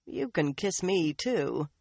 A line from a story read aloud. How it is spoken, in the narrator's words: Jewelin said dryly